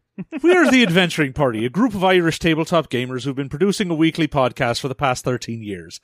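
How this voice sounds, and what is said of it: Put-on Irish accent. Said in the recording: “Probably much better than what I'm going to sound like when I do an Irish accent.”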